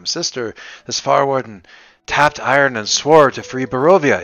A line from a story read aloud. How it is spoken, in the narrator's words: Ismark exclaims